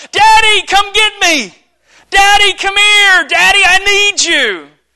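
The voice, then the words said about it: Squeaky child's voice, yelling. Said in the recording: “squeaky voice yelling”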